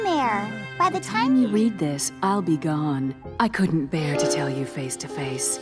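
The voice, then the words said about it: Good impression of Miss Bellum. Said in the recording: “You do a really good Miss Bellum impression.”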